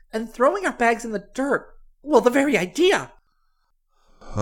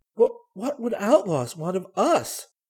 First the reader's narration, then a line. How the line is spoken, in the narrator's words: She stammered